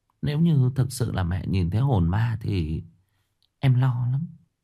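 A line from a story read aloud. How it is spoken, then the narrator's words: Worried whisper. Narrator (Vietnamese): Liễu thì thầm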